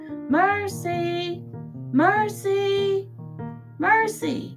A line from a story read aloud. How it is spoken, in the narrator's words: Watson and Stella and Frank and Baby shouted